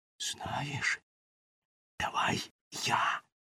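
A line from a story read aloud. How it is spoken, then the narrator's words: Whispered. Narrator (Ukrainian): прошепотів Вітя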